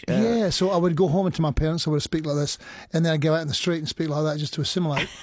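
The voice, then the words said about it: Scottish accent. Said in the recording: “You sounded very Scottish these days ... the Australian accent just went away ... the Scottish accent was the one that remained”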